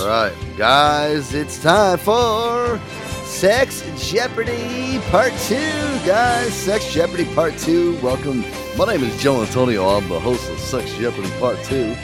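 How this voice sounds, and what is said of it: Game show host voice. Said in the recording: “doing my game show voice.”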